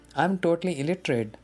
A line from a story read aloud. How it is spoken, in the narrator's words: I replied